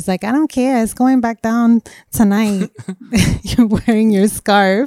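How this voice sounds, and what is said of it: Imitates another person's voice. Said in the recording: “you always put this voice every time you do an impression of her”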